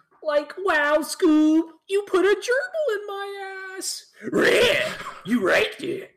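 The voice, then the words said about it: Cartoon Shaggy and Scooby voices. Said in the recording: “Scooby and Shaggy impression”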